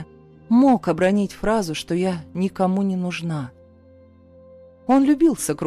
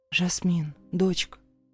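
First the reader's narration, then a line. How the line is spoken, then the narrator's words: Cautious call. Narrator (Russian): Осторожно позвала мама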